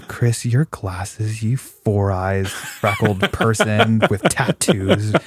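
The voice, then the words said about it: Soft, gentle-sounding voice. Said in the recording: “even though my voice is soft and quote unquote gentle”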